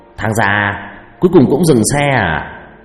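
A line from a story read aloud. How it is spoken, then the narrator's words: Laughing loudly. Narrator (Vietnamese): Nó cười lớn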